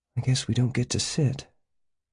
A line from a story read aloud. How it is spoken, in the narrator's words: Janet murmured